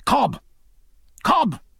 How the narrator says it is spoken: he cried

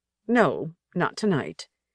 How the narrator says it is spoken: said stiffly

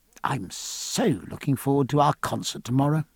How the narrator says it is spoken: he said in an undertone

